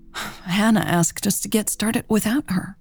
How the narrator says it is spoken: Mary sighed

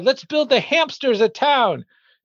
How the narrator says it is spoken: He exclaimed to his dad

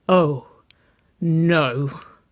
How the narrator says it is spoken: Nicole breathed

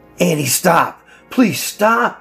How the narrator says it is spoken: I yelled

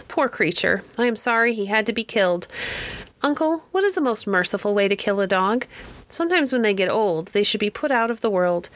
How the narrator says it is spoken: She sighed and said

